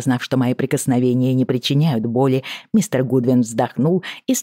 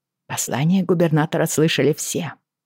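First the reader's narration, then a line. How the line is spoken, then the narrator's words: Muttering. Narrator (Russian): пробормотала я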